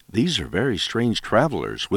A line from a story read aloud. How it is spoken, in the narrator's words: whispered the old couple to each other